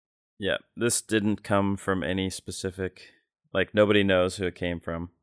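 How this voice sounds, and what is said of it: Usual voice. Nothing is said of it.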